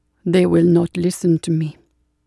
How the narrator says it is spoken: Satya said grimly

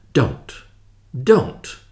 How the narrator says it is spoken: said fiercely

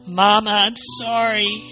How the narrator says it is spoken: wailed

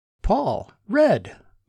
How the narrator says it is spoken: Martin called out

